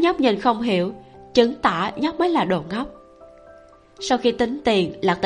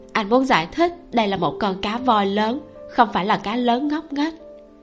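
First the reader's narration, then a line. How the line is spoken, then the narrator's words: Smiling. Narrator (Vietnamese): Lạc Tĩnh Ngữ mỉm cười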